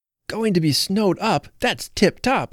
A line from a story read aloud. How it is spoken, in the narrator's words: cried Phil